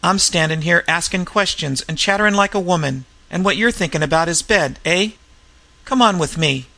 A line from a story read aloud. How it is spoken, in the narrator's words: he went on, with an apologetic laugh